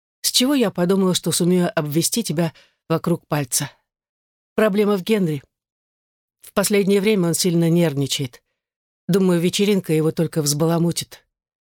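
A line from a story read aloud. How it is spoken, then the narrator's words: Sighing. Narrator (Russian): вздохнула Элизабет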